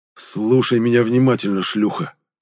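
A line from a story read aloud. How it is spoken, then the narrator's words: Hoarse rasp. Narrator (Russian): прохрипел я ей в лицо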